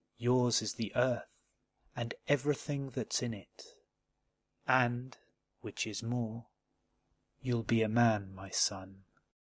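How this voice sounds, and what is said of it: British accent. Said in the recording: “classic poetry read in a British accent”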